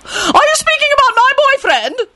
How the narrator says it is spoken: Lady Fanshawe screeched

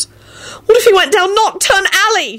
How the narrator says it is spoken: she wailed

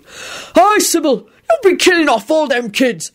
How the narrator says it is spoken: Hagrid shouted, swaying

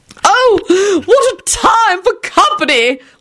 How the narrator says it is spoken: Lady Fanshawe shrieked dramatically

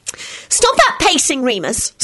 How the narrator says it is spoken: Solange snapped

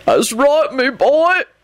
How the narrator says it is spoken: he howled and broke into great guttural sobs

